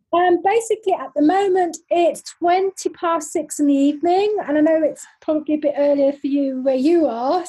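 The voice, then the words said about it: London accent. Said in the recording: “I am originally from London, as you can probably tell from my lovely London accent”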